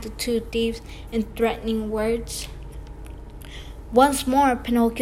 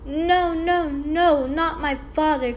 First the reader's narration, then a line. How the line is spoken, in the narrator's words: cried Pinocchio, wild with terror